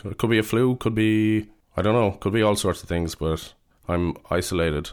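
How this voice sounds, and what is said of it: Voice sounds like a cold. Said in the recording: “I have a little bit of a cold”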